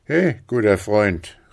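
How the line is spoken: Calling out, soldier. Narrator (German): rief der Gefreite

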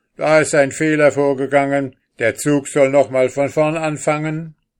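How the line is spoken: Calling out. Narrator (German): rief er

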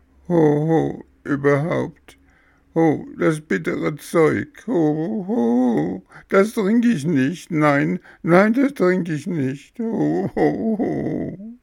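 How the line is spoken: Growling between loud sobs. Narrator (German): fing Bengele an, laut zu schluchzen, und zwischen den Schluchzern grollte er

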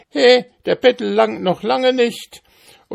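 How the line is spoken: Shouted, doll seller. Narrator (German): Und die Dockenverkäuferin nahm das Geld und schrie

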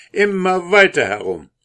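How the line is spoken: Soldier calling out. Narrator (German): rief der Soldat

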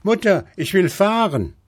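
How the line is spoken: Child calling out. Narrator (German): rief der kleine Häwelmann

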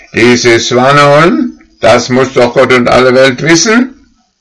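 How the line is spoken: Calling out. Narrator (German): rief

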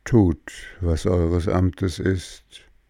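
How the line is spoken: Calm, gentle, sad. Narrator (German): Don Röschen aber sagte gelassen, sanft und traurig

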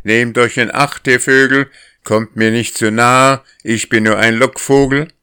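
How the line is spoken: Called out as usual. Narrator (German): wie gewöhnlich rief

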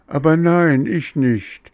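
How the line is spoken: Sobbing. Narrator (German): schluchzte Bengele

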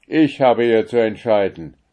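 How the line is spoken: Commanding voice. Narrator (German): sprach er mit gebietender Stimme

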